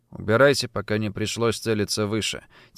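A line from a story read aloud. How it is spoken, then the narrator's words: Quiet, steely voice. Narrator (Russian): тихо сказал я, добавив голос стали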